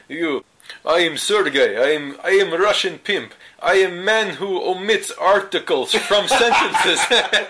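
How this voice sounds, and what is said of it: Exaggerated bad mock Russian accent. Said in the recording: “now you gotta do your Russian accent ... I am man who replaces W's with V's because I am Russian. Yeah, just god awful, like awful, awful accents.”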